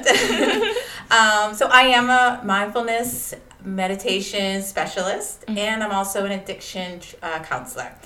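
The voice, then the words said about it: Boston accent. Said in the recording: “I am not from Georgia. I am from Massachusetts ... living in the city of Boston. So I will have a really northern accent, wicked Boston accent.”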